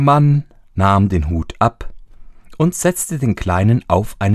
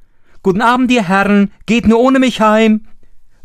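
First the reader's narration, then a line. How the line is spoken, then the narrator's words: Calling out, mocking laugh. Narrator (German): rief zu und lachte aus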